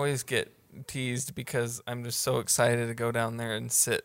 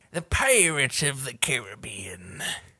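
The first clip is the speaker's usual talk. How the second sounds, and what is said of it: Pirate voice impression. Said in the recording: “a good pirate impression”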